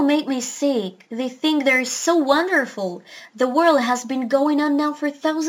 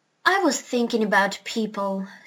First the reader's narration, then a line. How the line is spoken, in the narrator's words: said Polynesia